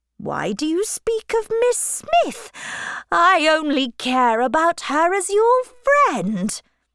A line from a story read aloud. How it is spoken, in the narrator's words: cried Mr